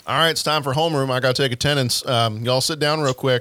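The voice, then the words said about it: Southern accent. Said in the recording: “some of my best friends are Southerners. So I feel like it's okay for me to talk that way ... I am a Southerner ... If I get tired enough, that's how my voice sounds.”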